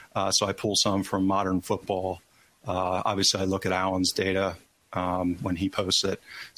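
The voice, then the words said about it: American accent. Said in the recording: “looking and hearing from your accent, that you're actually from the U.S.”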